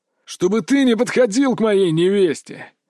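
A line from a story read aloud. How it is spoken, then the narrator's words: Growl. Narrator (Russian): прорычал Львов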